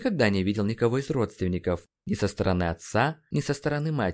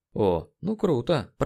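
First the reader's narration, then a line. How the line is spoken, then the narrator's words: Muttered. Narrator (Russian): пробормотал Нейт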